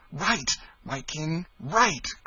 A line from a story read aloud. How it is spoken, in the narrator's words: cried Tom Canty